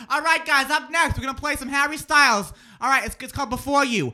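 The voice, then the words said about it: Exaggerated Boston accent, radio DJ style. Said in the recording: “we both have that accent coming out sometimes. I had Boston. ... I had to legitimately take classes to work on my accent ... Boston ... radio.”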